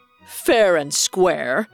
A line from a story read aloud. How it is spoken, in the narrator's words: responded mockingly and burst into booming laughter